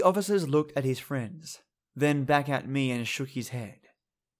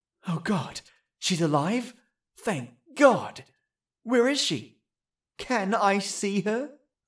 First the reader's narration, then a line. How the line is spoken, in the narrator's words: I breathed in relief